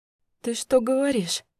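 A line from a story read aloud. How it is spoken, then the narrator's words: Hoarse question. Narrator (Russian): спросила я севшим голосом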